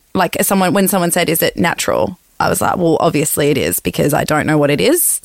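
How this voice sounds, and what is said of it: Vocal fry, creaky voice. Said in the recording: “the popping noise at the back of your throat ... So I do it. You can hear it. I'm doing it there. So that's my vocal fry. ... But that's just how my voice sounds.”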